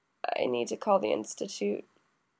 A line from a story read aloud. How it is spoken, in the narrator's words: Toya mumbles into the pillow